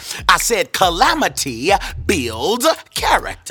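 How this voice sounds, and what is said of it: Preacher-style emphatic delivery. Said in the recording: “That's my preacher voice.”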